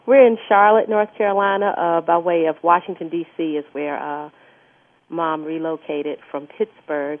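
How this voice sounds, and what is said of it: Southern American accent. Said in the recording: “you've got Southern accents.”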